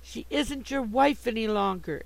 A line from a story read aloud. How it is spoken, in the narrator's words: exclaimed Sue, passionately excited